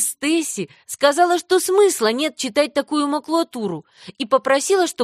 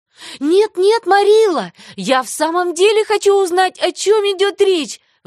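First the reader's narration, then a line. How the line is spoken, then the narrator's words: Pleading. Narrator (Russian): взмолилась Энни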